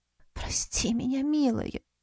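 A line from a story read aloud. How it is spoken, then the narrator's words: Whisper. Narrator (Russian): прошептала Калет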